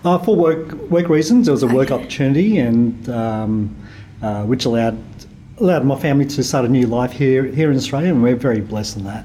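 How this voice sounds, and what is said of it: Strong Australian accent. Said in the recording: “I've got a very strong Australian accent. ... Yes, you do.”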